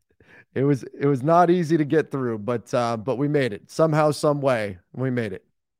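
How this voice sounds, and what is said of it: Weak voice recovering from voice loss. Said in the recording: “my voice is getting a bit stronger every day ... losing my voice ... your voice was going out”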